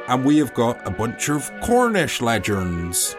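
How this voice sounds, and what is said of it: Attempted Cornish accent. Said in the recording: “That was a Cornish accent. ... I will let the listener be the judge of that.”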